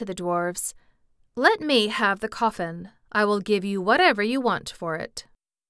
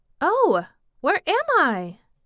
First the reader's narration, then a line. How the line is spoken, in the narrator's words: she cried